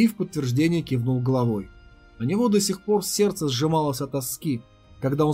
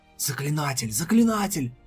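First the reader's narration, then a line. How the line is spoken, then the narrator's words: Cautious whispers. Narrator (Russian): слышались осторожные шепотки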